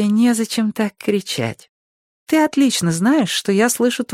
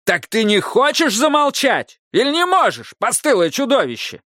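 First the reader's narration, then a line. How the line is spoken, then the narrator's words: Yelling. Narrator (Russian): заорал Автоматей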